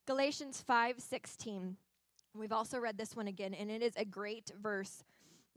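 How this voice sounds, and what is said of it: Strained, fading voice. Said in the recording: “Excuse me, I'm losing my voice today. ... So it's a lot on the voice.”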